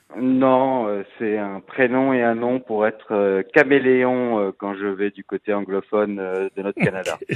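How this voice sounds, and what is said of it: French accent, possibly Alsatian. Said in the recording (French): “vous allez peut-être être surpris un peu de son accent ... Votre accent français un peu, est-ce qu'il est alsacien? ... Oui, effectivement”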